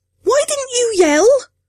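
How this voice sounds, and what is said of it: Shrill, panicked voice. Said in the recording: “My voice was shrill”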